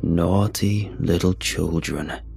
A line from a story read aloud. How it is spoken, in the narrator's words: I heard it say in a cold, raspy voice